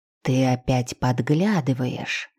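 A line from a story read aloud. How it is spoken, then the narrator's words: Loud whisper, from corridor. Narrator (Russian): громкий шепот в коридоре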